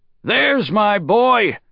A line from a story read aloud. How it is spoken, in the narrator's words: Shi Qiang shouted